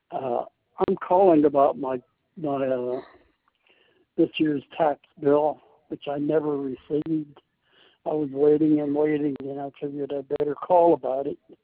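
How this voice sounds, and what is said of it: Hoarse, croaky voice. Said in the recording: “I've got a frog in my throat.”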